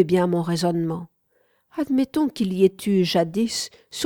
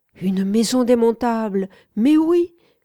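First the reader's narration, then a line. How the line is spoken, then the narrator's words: Exclaiming. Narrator (French): s'exclama mon interlocuteur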